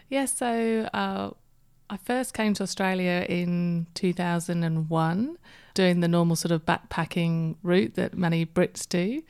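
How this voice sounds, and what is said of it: Speaks with a noticeable accent. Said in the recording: “I can hear an accent”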